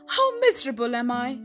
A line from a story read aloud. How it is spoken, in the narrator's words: she exclaimed